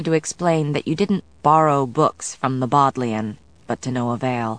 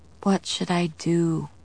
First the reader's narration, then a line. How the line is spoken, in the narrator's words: I murmured